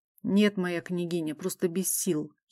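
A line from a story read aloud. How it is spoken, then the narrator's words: Weary mumble, gloomy warrior. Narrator (Russian): едва шевеля губами пробормотал невысокий хмурый воин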